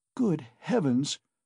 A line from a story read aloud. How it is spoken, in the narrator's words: cried Pulcheria Alexandrovna